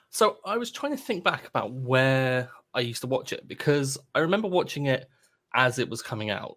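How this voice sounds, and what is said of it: Non-American English accent. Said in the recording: “based on your accent, you do not live in the United States”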